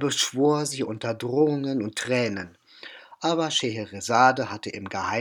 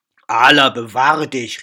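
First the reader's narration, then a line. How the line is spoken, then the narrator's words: Vizier calling out. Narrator (German): rief der Vezier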